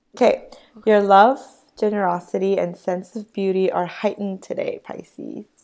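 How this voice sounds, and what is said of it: Raspy sick voice. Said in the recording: “I'm sick, so my voice is not very pretty... It's the nice raspy voice... I love my sick voice”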